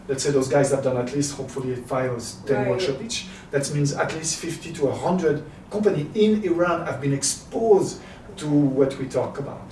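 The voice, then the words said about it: French accent. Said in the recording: “Do you understand my ... French ... accent? ... I don't think anyone ever complains about a French, French accent.”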